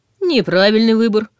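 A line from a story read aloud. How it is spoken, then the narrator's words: Laughing. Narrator (Russian): рассмеялся внизу Ваня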